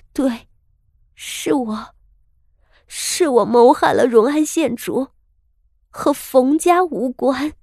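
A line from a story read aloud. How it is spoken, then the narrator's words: Anguished murmur. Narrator (Chinese): 他的嘴唇被咬出了血，喃喃道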